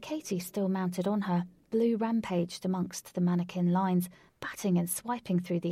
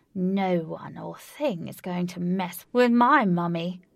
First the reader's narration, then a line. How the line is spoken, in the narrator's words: Blue said through her hissing teeth